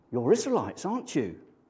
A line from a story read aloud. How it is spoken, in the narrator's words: she gasped